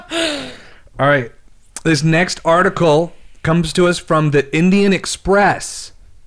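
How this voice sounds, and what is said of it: News anchor voice. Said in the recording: “You have such a better news voice.”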